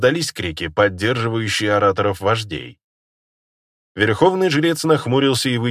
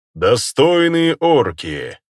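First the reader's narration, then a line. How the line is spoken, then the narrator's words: Loud. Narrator (Russian): громко произнес Фирир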